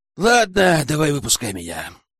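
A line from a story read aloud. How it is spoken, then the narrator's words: Sigh. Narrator (Russian): вздохнул Лежнев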